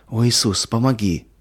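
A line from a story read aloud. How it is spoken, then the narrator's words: Pleading. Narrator (Russian): взмолилась Катя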